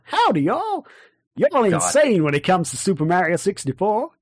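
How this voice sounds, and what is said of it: Bad put-on American accent. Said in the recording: “I'm going to do that in an American accent... I'm actually not going to do the American accent. Please. It's terrible.”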